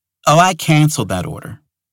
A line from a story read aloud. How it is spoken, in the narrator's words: Jessica said